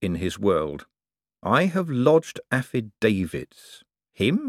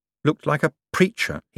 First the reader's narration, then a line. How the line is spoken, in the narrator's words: he mumbled